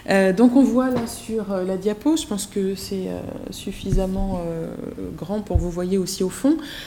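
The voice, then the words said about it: Turkish-speaker's accent. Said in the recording (French): “Désolée pour mon accent, je ne suis pas du tout arabophone, mais plutôt turcophone”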